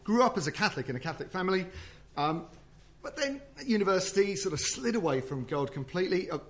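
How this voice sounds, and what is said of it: South London accent. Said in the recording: “this great South London accent”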